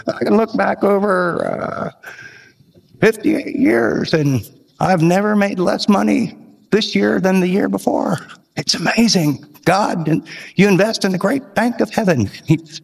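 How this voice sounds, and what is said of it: Imitates an old man's voice. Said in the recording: “He talked like this... He was really old... That's bad imitation.”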